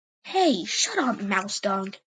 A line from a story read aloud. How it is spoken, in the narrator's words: Cherry Paw snarled